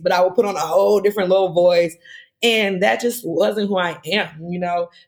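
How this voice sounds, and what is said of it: Southern US accent. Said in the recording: “I'm from the dirty South, so this is how I talk.”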